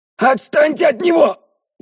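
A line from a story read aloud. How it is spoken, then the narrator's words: Furious shout. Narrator (Russian): Уже с яростью закричал Лени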